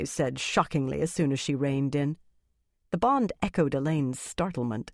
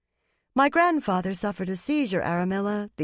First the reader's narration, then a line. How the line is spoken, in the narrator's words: the young woman said calmly